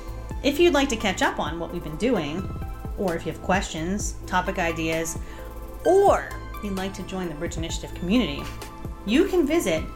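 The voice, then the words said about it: Public-radio announcer voice. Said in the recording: “Is it the voice? NPR voice? ... I'm trying not to have an NPR voice.”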